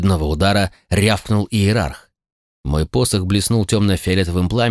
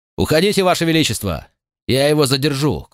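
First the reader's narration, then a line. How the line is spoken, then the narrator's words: Shout. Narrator (Russian): крикнул я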